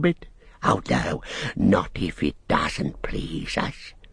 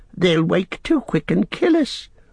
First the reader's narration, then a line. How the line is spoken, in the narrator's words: whined Smeagol in the last effort